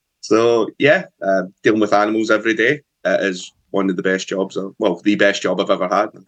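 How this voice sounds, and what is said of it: Scottish accent. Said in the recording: “I can detect from your accent that you're from north of the border... So I'm toning down the accent a little bit.”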